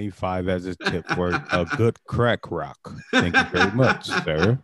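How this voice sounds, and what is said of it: Usual voice. Nothing is said of it.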